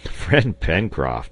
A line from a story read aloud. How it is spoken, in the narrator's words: answered, laughing